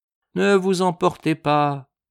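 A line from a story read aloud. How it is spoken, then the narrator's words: Melancholy, pathetic tone. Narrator (French): dit d'un ton mélancolique et pathétique à la fois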